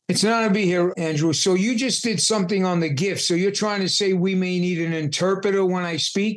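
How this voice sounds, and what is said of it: Heavy New York accent. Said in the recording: “He has got this heavy New York accent ... We may need translation”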